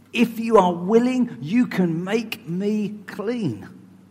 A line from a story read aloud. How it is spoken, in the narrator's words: begged him on his knees